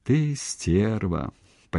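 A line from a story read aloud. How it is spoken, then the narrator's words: Almost tender. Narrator (Russian): почти ласково произнес он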